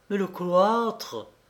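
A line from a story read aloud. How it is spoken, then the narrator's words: Exclaimed. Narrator (French): s'écria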